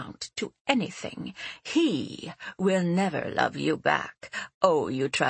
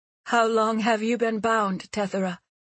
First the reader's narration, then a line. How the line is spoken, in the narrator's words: Seti asked her, her voice shaking a little